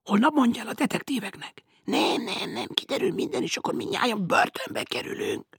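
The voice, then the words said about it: Angry whispering. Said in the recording (Hungarian): “Indulatosan suttognak ... A két suttogó”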